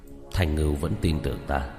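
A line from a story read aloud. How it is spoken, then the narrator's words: Grave muttering. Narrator (Vietnamese): Đạo Phong vẻ mặt rất ngưng trọng, lẩm bẩm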